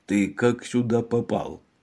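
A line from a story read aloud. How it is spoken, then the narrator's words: Muttering. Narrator (Russian): Мегре бормоча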